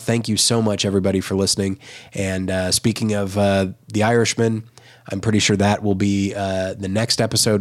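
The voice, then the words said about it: Sick, worsening voice. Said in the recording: “I'm a little bit under the weather, and so my voice is getting worse”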